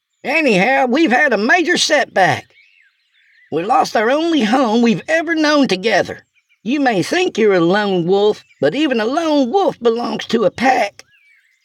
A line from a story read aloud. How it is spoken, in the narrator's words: shouted